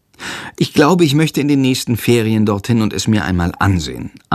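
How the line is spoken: Plain. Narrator (German): antwortet Jendrik

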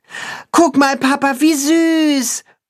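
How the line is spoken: Boy calling out. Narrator (German): ruft der Junge seinem Vater zu

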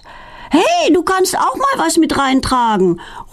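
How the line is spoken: Calling after someone. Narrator (German): ruft Filine ihr hinterher

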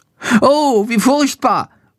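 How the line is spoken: Horrified cry. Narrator (German): ruft er entsetzt

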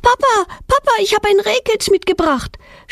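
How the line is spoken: Excited shout. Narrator (German): schreit Petronella mit aufgeregter Stimme

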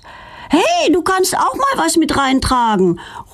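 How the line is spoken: Calling after someone. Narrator (German): ruft Feline ihr hinterher

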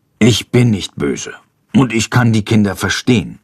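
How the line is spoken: Murmur. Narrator (German): murmelt er

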